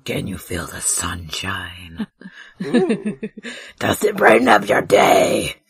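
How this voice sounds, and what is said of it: Creepy, spooky demon-like voice. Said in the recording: “I'm trying to make it spooky ... a surprisingly creepy voice you just did there ... that weird demon voice”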